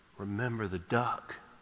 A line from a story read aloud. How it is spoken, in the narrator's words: whispered